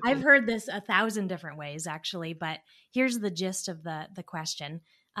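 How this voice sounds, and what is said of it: Put-on English accent. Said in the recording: “English accent.”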